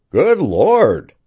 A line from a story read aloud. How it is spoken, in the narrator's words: cried the man